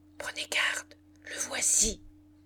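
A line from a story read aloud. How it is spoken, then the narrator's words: Murmured. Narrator (French): murmura Madame Chantereau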